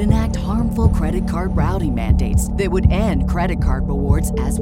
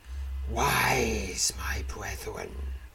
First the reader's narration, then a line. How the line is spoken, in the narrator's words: the creature hisses